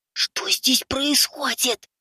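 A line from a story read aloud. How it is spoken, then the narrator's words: Hissing. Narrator (Russian): зашипел я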